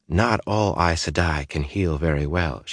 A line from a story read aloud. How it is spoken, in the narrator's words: she said in a soothing voice